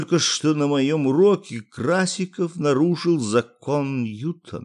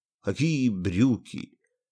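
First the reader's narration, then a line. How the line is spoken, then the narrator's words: Weak-voiced question. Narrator (Russian): слабым голосом спросил физик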